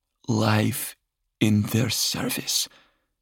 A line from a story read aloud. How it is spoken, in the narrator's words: Septimus said in a musing tone